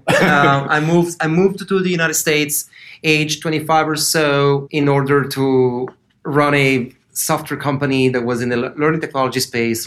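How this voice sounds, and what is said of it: Italian accent. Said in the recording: “you're going to hear an accent from here on. That's a, I call it a spaghetti accent. It's from Italy.”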